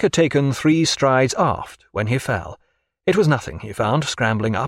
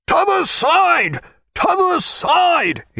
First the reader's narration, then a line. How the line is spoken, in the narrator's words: roared